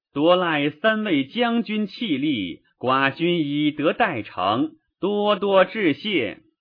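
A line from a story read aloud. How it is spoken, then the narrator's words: Loud call. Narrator (Chinese): 公子吕高声叫曰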